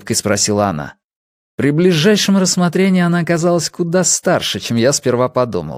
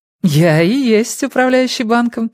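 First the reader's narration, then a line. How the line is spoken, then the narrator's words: Mischievous laugh. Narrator (Russian): с озорными искорками в глазах рассмеялась она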